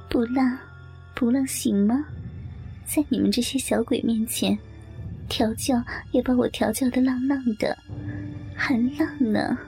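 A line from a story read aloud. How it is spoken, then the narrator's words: Laughing. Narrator (Chinese): 我笑着说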